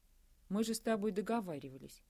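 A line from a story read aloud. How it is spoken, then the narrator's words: Forced calm. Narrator (Russian): как можно более спокойно начал Андрей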